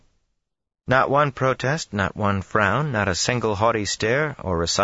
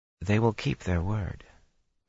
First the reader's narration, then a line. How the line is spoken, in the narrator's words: Min murmured abruptly